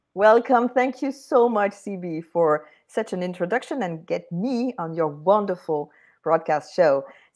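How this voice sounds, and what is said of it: French accent. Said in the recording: “she's got the French accent”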